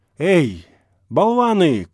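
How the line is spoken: Shout. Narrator (Russian): крикнул он

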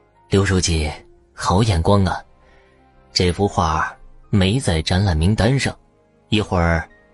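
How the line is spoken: Admiring, tutting praise. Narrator (Chinese): 他啧啧的赞叹着

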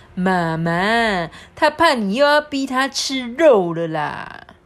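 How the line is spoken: Teasing. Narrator (Chinese): 普普就取笑他弟弟说

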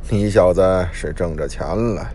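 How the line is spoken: Sighing. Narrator (Chinese): 我……摇着头叹道

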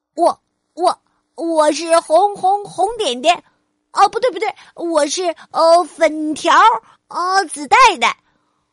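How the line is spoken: Stuttering chameleon. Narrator (Chinese): 变色龙结结巴巴的说

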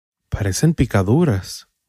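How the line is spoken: Servant murmuring. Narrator (Spanish): murmuró la sirvienta

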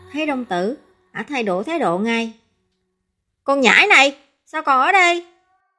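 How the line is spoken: Harsh snap. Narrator (Vietnamese): Thường Nguy nạt

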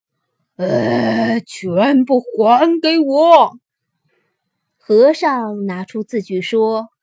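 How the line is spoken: Loud roar. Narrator (Chinese): 罗刹立刻大声吼叫

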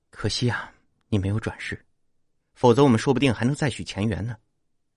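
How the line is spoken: Sighing. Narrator (Chinese): 王亮叹了口气

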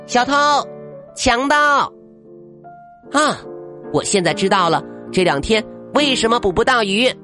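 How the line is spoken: Girl shouting loudly. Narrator (Chinese): 爱斯基摩小女孩大声的喊道

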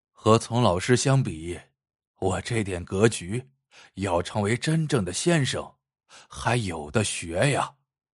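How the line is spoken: Stunned murmur. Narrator (Chinese): 老张惊得下巴差点掉在地上，半晌才喃喃道

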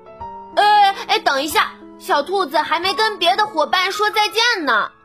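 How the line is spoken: Shouting. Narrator (Chinese): 他喊道

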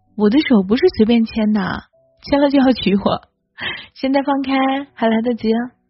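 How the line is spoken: Laughing. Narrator (Chinese): 他笑着说

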